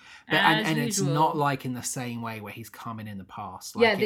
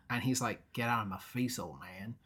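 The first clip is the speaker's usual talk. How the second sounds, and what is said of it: Badly done put-on accent. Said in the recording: “this accent ... It's terrible. ... It's so bad.”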